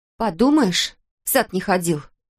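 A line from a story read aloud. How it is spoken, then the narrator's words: Through gritted teeth. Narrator (Russian): процедила, стоя у окна Кристал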